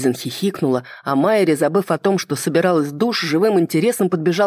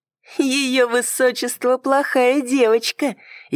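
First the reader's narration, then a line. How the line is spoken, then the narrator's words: Snide. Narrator (Russian): ехидно проговорила Майри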